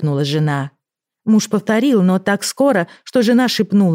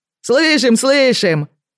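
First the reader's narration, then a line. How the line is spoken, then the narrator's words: Cheerful voices, from yard. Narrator (Russian): весело отвечали ему со двора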